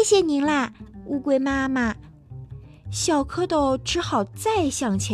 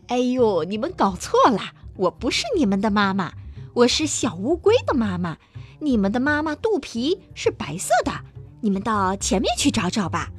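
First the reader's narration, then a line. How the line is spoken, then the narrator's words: Laughing. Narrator (Chinese): 大乌龟笑着说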